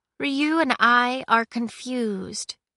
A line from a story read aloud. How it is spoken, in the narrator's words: she said